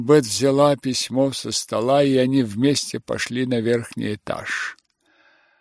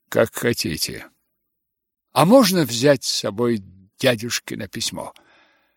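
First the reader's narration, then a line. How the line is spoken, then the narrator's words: Cold. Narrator (Russian): мистер Беннет холодно ответил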